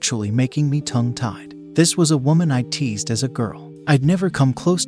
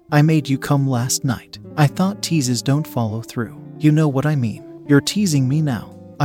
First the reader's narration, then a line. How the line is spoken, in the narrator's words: I said